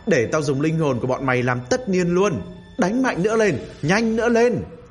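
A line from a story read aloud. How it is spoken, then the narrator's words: Shouting. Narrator (Vietnamese): Khang ... kêu lên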